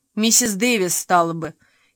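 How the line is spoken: Giggling. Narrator (Russian): хихикнула Фейт

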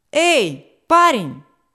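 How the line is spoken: Shout, captain. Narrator (Russian): крикнул капитан

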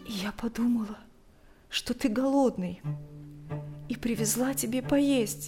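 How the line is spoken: Barely audible, forced out. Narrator (Russian): еле слышно выдавила она

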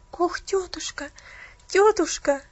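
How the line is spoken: Tearful pleading. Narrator (Russian): взмолилась Пуляна со слезами на глазах

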